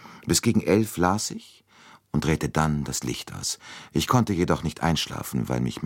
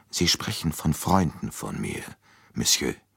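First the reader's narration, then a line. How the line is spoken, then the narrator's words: Old woman, moved voice. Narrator (German): Mit bewegter Stimme entgegnete die alte Dame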